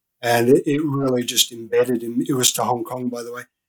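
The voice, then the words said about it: Australian accent. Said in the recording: “I'm Australian. I don't know if you can pick up my accent, but I'm Australian.”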